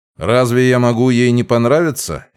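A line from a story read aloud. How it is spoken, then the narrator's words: Snide question. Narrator (Russian): ехидно спросил я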